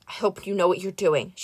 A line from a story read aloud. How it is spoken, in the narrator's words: she said quietly